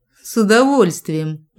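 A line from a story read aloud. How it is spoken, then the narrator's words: Loud barking bark, spouse. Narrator (Russian): гаркнула моя дрожайшая вторая половина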